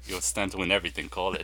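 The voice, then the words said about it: Imitates another person's voice, accented. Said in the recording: “That's my Javier Bardem accent.”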